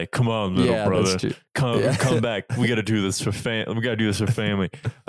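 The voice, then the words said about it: Imitates another person's voice. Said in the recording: “Terrible imitation right here. I'm just kind of doing whatever.”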